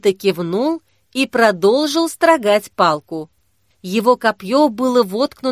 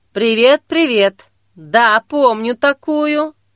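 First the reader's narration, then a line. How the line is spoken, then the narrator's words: Man's drawl. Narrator (Russian): Протянул смуглый брюнет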